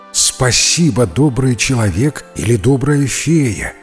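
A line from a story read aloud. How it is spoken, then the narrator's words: Plain, old man. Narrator (Russian): сказал старик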